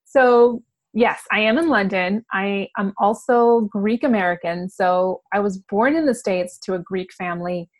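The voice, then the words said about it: American accent. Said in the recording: “I've got this American accent ... You sound American ... I've held on to my American accent.”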